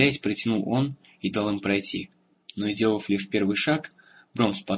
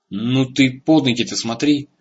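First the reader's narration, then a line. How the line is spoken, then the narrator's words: Angry snap. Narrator (Russian): сердито огрызнулся тот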